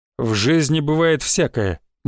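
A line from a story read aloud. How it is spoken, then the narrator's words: Gloomy reply. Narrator (Russian): мрачно ответил ему Святослав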